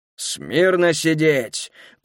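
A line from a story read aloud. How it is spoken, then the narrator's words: Growled. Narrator (Russian): прорычал Азаревич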